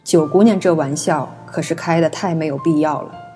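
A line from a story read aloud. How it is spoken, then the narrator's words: Deep grave voice. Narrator (Chinese): 他沉声道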